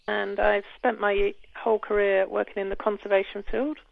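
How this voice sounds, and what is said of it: British accent. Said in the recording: “As you can probably tell by my accent, I am from the UK”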